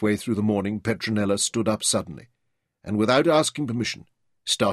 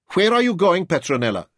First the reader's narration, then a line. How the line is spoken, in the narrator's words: demanded sharply